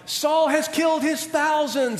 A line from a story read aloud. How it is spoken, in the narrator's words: people are shouting